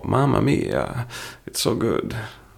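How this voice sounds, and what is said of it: Bad put-on Italian accent. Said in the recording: “that sounds bad Italian impression”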